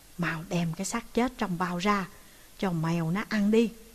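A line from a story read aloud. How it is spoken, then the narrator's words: Hurried, lowered voice. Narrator (Vietnamese): Trương Tiểu Biện thấy thế nguy, vội vã hạ giọng gọi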